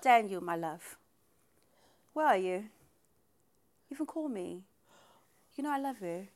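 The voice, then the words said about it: Put-on accent. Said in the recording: “why is she doing that accent? ... I feel like it's a pretty good accent.”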